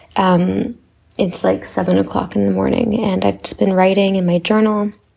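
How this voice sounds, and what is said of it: Raspy voice. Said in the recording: “It is early morning for me, so please do not mind my raspy voice.”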